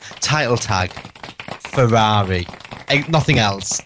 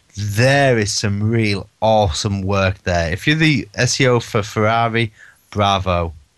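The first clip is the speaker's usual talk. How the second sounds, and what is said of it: Sarcastic mock praise. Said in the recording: “being sarcastic”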